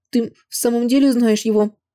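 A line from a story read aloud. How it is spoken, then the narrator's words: Tearful question. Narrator (Russian): Сквозь слезы переспросила Лин Ци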